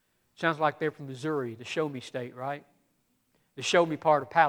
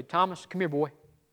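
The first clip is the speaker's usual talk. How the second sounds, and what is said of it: Put-on Southern US accent. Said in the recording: “in my head Jesus has a southern accent”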